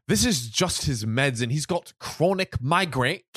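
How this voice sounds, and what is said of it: Posh put-on accent. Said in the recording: “what should H's accent be? We'll give both the friends posh”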